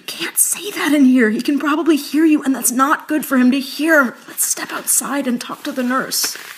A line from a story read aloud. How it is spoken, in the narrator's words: I whispered